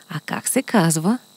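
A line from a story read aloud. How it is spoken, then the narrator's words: Quiet whisper in ear. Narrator (Bulgarian): тихо го попитаха на ухо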